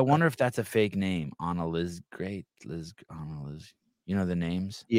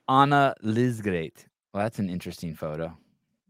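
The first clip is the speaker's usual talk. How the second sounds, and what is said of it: Put-on accent, done well. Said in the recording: “That was a good accent there.”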